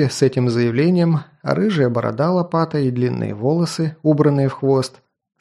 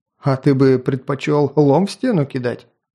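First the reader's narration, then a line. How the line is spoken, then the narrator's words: Chuckling. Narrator (Russian): хохотнул Облом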